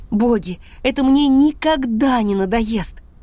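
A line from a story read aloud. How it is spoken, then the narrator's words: Groaning. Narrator (Russian): Он застонал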